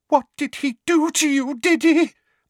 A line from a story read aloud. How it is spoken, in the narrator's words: Aunt Petunia said in a quavering voice